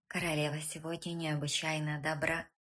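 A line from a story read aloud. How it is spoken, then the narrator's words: Whispered. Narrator (Russian): шепнул он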